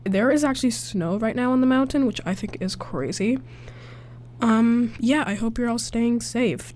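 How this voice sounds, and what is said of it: Sick, slightly altered voice. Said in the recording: “pardon me if my voice sounds a little different. I am a little sick.”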